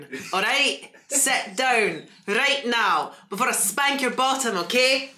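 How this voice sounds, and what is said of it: Put-on Scottish accent. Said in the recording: “I love me a Scottish accent. That's a sexy fucking accent.”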